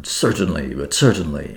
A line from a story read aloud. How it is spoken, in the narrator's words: Papopoulos had already murmured